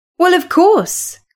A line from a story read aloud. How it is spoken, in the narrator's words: cried Kathy